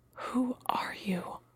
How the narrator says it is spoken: Alana whispered

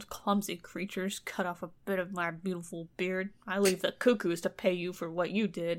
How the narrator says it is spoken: the dwarf grumbled

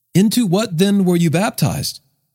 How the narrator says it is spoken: he asked them

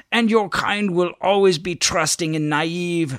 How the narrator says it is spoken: the blonde sneered

